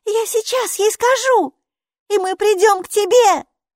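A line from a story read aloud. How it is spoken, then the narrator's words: Shouted reply. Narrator (Russian): крикнула Майки в ответ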